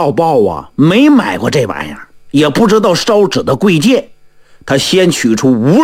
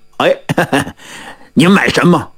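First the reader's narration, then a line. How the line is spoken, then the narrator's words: Smiling shopkeeper greeting. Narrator (Chinese): 掌柜的 笑脸相迎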